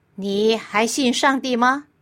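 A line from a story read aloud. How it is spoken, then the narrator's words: Questioning. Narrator (Chinese): 被训导员叫去办公室问话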